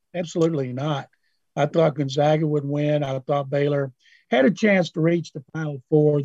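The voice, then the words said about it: Hoarse voice. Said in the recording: “bear with me on my hoarseness.”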